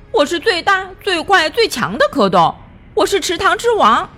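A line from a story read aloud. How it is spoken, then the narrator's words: Shouting. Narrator (Chinese): 他叫道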